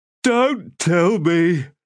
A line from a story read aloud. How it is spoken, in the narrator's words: the third man said, fighting a yawn